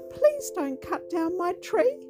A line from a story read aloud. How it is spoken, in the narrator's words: a small voice cried